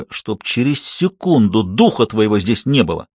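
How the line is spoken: Hissed through clenched teeth. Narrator (Russian): Мария процедила сквозь зубы

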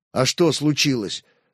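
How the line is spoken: Plain. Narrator (Russian): спросил Святослав

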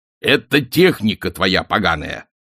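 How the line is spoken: Angry reply. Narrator (Russian): зло ответил маршалк

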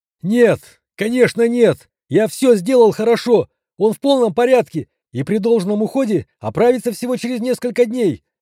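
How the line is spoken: Near-tears shout. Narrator (Russian): Чуть не плача выкрикнул врач

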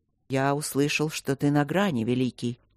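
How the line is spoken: Calm reply. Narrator (Russian): отозвался тот спокойно

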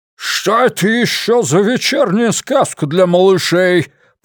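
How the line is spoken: Growled. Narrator (Russian): прорычал он

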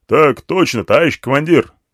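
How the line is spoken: Soldiers barking in unison. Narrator (Russian): рявкнули бойцы дружно

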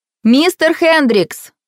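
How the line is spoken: Loud. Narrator (Russian): громко сказала их провожатая

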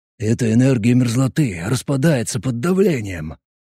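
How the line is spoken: Whispered. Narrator (Russian): прошептал Боб

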